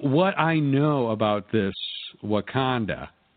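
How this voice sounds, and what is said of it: Strong Kansas City accent. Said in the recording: “just said in a very Kansas City accent.”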